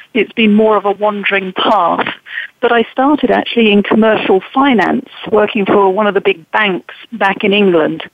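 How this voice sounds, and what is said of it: Non-American English accent. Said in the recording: “as you can tell from the accent, not originally from the U.S.”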